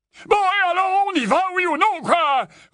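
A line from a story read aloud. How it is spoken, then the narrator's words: Uncle roaring. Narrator (French): rugit l'oncle Vernon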